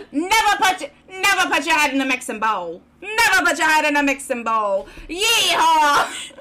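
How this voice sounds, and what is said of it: Failed Southern accent, sounds New York. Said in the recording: “neither of us can do a Southern accent? ... that sounds like John Mulaney trying to do like an old man's accent ... It sounds more New York-y.”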